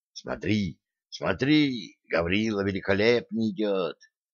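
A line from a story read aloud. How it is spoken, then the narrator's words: Whisper from behind. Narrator (Russian): слышал он шепот за своей спиной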